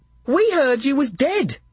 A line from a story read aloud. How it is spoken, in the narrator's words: said Squeak, a crescent of a smile